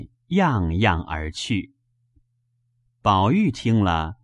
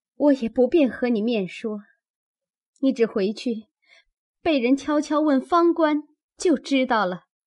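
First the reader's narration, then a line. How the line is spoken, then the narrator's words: Crying. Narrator (Chinese): 又哭道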